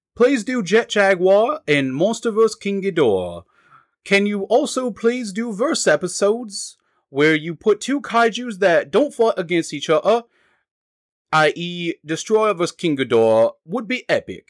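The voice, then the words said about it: Attempted British accent. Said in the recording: “You better have done this in a British accent for the whole review... I can't do any European accents”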